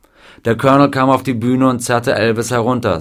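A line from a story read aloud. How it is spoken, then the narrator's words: Plain. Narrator (German): sagte George Klein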